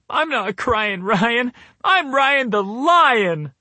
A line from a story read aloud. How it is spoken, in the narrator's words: I'd yell back between sobs and sniffles